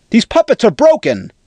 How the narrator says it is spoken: shouted Reyes II

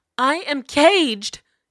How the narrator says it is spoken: Jasira cried, her blood flaring visibly in her veins

